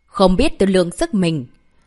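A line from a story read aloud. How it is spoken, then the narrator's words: Cold, contemptuous. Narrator (Vietnamese): Lục Trưởng Lão tỏ rõ vẻ khinh miệt, lạnh lùng nói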